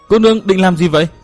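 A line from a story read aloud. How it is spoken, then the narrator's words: Startled shout. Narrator (Vietnamese): Cố Kiếm Nam cả kinh la lên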